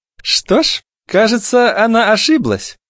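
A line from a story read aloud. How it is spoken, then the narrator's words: Sweet voice. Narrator (Russian): сладким голосом вставила Греттель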